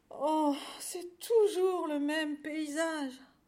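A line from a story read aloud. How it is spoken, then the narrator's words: Moaning poor cow. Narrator (French): gémit la pauvre vache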